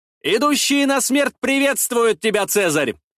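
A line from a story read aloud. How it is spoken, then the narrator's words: Shouted. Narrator (Russian): выкрикнул я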